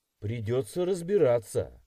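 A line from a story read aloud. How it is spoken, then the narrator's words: Snorting. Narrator (Russian): хмыкнул я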